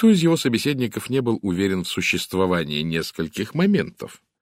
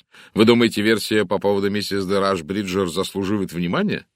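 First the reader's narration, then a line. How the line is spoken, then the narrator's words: Plain. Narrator (Russian): спросил сэр Чарльз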